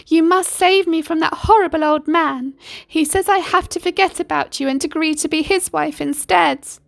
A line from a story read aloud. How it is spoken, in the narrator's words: Yasmin wailed